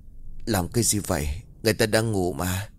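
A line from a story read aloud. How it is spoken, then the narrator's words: Drowsy groggy question. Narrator (Vietnamese): Vì cơ thể vẫn còn thuốc mê, Quân hỏi bằng một giọng ngái ngủ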